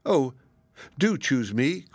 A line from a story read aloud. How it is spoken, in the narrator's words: cried the fox